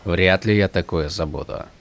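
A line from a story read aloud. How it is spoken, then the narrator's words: Dry. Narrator (Russian): сухо проговорил Каладин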